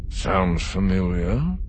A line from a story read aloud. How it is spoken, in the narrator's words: the director mumbled